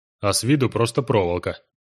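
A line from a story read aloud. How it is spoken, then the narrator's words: Snorting. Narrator (Russian): хмыкнул южанин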